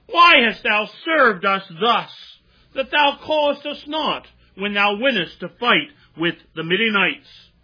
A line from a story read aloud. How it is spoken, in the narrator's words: they did chide with him sharply